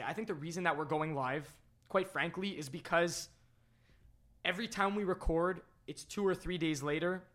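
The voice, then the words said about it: Hoarse, cracking voice. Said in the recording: “these voice cracks have to stop. And I'm losing my voice. It sucks, but I'm losing my voice”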